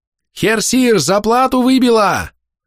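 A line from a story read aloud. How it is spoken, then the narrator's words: Loud yell. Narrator (Russian): заорала появившаяся в трюмном люке голова походного мастера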